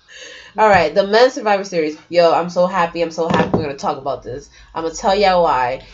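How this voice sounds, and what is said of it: Congested voice from a cold. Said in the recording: “Even though I have a cold.”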